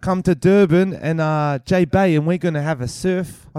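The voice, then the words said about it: Put-on South African accent. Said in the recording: “I can't think of how to do a South African accent. ... South Africans, let us know what you thought of our accent.”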